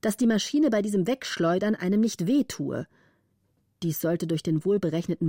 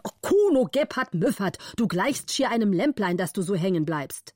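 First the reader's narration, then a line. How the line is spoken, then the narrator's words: Angry shout. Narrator (German): Der Graf war zornig und rief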